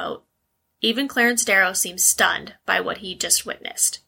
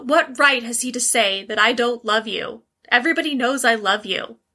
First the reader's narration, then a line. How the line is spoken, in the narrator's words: Thalia shouted hysterically